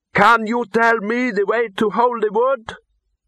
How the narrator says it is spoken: The boy cupped his hands around his mouth and shouted

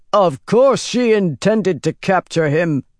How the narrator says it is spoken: Moradin roared

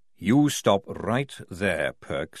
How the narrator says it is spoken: he said, lowering his voice

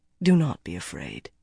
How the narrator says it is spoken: he said softly

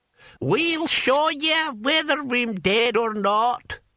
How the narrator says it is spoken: cackled Hamish

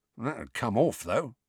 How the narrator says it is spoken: muttered Mundungus

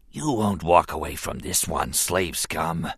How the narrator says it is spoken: he wheezed softly, grinning

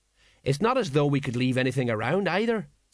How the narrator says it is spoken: said Colon

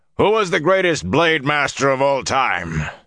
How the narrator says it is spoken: From the throats of dozens of students came a massed bellow

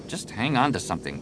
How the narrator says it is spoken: Jason muttered

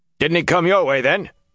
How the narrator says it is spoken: One of the men ... shouting

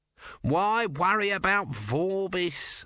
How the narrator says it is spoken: Om whined

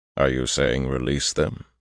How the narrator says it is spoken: asked calmly

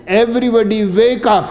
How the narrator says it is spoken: he shouts

